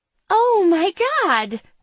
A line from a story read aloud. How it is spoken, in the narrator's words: the blonde exclaims